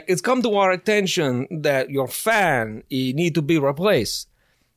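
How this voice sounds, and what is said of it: Imitated voice with unfamiliar accent. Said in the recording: “I don't know what accent they had. ... that impression was way more accurate than I thought it was. That's actually exact.”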